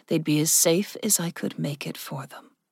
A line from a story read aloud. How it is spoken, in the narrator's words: Rudit said softly